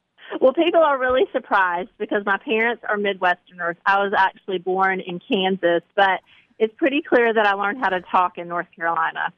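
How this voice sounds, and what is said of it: Southern American accent. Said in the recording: “you have a Southern accent, which ... you sound like some of my extended family members”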